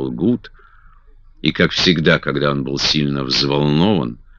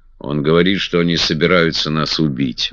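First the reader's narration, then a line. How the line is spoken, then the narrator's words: Gloomy reply. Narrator (Russian): мрачно отвечал я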